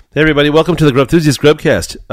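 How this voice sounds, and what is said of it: Excited, upbeat delivery. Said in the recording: “I sound a little excited”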